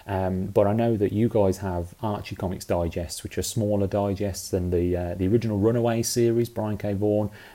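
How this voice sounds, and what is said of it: British accent. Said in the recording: “as you can tell by my accent, I grew up in the UK.”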